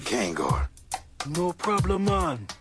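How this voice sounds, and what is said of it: Jamaican Rastafarian character accent. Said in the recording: “he's got a definite like Rastafari, like he's a Jamaican accent”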